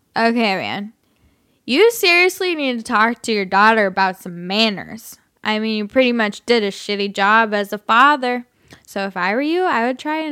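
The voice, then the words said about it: Put-on drunk voice. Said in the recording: “I'm going to be the drunk Russian ... I'll just do my drunk voice.”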